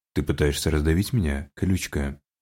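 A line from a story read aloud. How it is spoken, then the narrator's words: Snorting. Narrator (Russian): Хмыкнув, Хантер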